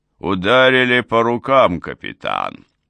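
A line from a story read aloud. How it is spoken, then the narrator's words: Deep booming bass. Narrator (Russian): пробасил похожий на вставшего на задние лапы медведя Ла-Мори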